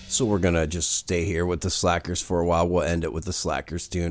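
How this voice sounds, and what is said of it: Sick, under-the-weather voice. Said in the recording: “if you can tell by my voice, uh, I'm very under the weather”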